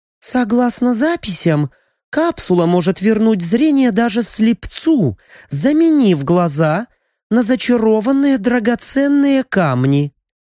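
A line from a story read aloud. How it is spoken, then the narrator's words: Uncertain explanation. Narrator (Russian): неуверенно пояснила Мия, прекрасно помня результаты первой ошибки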